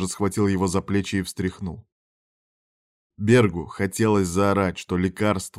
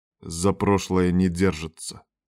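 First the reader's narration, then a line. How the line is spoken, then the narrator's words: Stern. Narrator (Russian): строго сказал шеф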